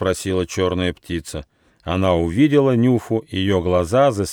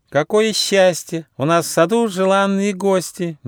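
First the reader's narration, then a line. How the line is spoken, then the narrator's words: Sugary sing-song voice. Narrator (Russian): неожиданно сладким голосом запела Бо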